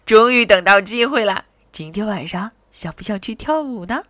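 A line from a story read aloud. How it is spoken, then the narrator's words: Giggling. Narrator (Chinese): 阿德咯咯笑着说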